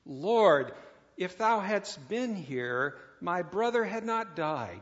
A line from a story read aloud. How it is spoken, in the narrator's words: she says